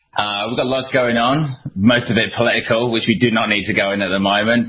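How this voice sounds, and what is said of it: English accent. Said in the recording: “all the way from England ... I love your accent.”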